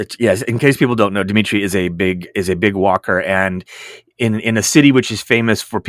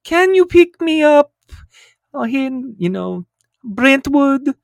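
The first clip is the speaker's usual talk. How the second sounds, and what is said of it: Poor imitation of another person's accent. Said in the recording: “That was terrible accent ... terrible accent”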